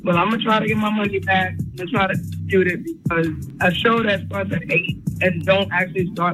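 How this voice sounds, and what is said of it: Tired-sounding voice. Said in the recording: “That's why I sound tired.”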